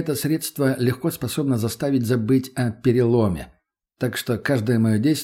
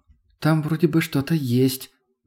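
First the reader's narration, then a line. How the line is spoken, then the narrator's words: Uncertain. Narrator (Russian): неуверенно произнесла Тоня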